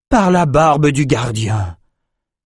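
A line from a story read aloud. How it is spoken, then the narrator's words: Exclaiming. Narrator (French): s'écria Rennes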